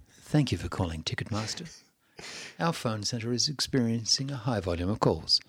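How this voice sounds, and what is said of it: Radio announcer voice. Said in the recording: “that's my radio voice”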